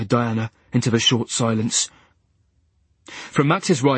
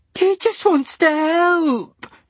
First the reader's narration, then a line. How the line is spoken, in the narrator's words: wailed Diana